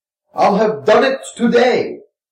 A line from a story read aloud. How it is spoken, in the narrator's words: he exclaimed contemptuously